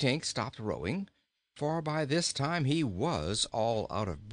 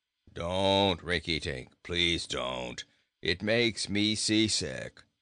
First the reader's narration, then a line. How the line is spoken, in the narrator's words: growled Bilbil